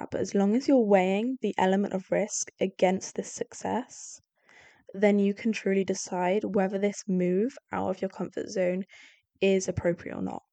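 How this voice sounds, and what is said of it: Congested voice from a cold. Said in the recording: “Sorry, I've got a cold.”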